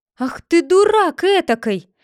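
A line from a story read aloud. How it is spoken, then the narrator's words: Old woman shouting. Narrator (Russian): закричала на него старуха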